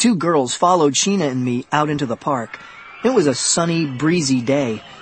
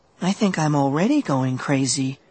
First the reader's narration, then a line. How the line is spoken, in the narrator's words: Brittany muttered